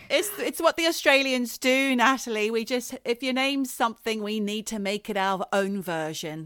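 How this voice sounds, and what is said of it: Australian accent. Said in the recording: “she says she likes our accents”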